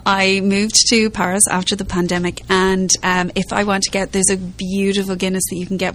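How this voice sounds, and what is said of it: Irish accent. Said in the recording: “from Ireland ... is where the accent comes from”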